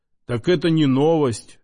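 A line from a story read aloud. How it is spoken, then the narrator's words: Mustached man smirking. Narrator (Russian): хмыкнул усач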